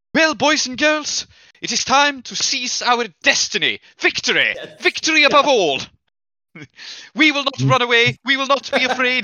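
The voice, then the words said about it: Put-on fictional accent, rousing speech. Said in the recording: “your very Akarosi accent”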